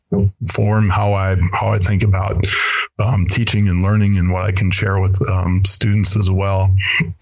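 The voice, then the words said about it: Minnesota accent. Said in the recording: “You may not have a German accent, but you definitely have a Minnesota one. ... I've always found that a very distinct one.”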